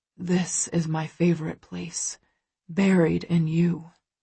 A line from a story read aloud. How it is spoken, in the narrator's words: he murmurs against my skin